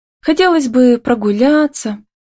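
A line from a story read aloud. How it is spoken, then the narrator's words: Sighing. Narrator (Russian): вздохнула она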